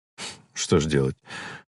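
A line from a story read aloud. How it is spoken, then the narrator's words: Sighing. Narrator (Russian): вздохнул доктор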